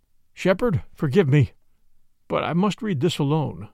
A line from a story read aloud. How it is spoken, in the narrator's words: he said, unsteadily